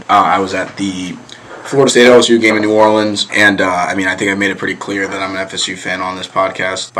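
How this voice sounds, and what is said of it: Raspy, strained voice. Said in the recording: “My voice might sound a little raspy. I lost my voice”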